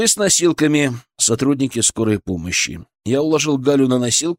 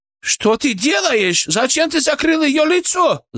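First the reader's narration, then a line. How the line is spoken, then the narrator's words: Shrieking. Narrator (Russian): завизжала Джуна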